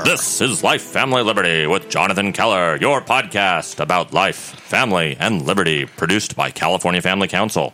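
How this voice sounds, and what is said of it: Deep radio announcer voice. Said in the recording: “My best Skip Essek impersonation. ... radio deep voice”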